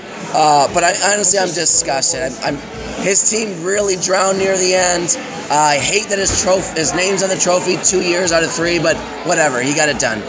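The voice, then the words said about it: Hoarse, fading sick voice. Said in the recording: “I'm losing my voice. I'm a bit sick.”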